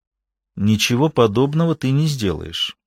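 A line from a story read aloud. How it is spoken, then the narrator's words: Almost calm. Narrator (Russian): сказала она почти спокойно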